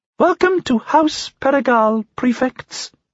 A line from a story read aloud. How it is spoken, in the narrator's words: said in a squeaky voice